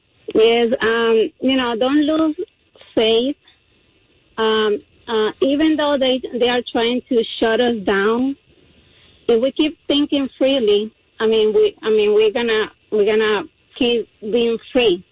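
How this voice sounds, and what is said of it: Cuban Spanish accent in English. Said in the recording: “I'm sorry about my accent. I'm from Cuba. ... I'm Cuban-American. ... Don't apologize for your accent ever. You sound great.”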